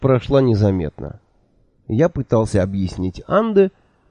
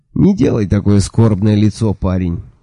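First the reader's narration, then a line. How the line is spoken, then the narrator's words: Sleepy grumbling. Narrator (Russian): сонно проворчал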